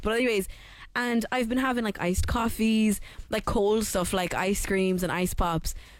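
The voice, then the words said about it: Hoarse voice. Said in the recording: “Look at my voice. Can you hear me? ... this is not normally me. I'm getting a bit of a hoarse voice”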